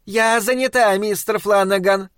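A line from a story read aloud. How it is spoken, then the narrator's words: Loud distant shout. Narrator (Russian): громко крикнула его жена из подсобки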